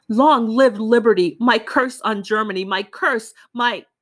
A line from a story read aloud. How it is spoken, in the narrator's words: the latter shouted in a strong and calm voice